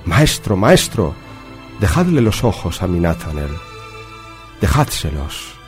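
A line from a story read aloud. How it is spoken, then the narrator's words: Desperate pleading. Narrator (Spanish): pidiéndole clemencia y le suplicó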